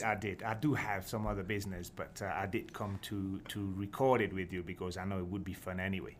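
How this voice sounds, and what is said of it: Unusual Scottish accent. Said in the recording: “this is the strangest Scottish accent I have ever heard”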